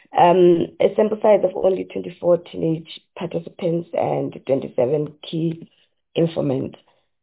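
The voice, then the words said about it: Hoarse, flu-affected voice. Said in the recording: “excuse my voice, I'm coming down with a bit of flu”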